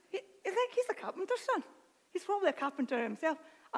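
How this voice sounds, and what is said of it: Put-on Irish accent. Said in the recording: “I don't know why I've changed my accent. ... That was my Irish accent”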